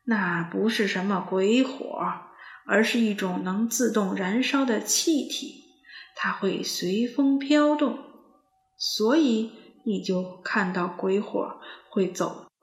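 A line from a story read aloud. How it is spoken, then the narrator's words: Old man, cheerful. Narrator (Chinese): 山羊爷爷笑呵呵地说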